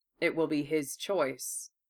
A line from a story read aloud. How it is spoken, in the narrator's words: Aoshi said evenly